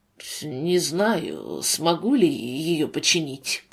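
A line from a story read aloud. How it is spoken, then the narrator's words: Muttering, husband. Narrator (Russian): пробормотал муж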